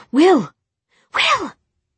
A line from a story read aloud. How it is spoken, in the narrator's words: Tessa cried